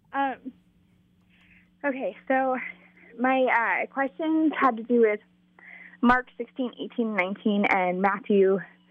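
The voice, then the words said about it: Slightly out of breath. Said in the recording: “A little out of breath.”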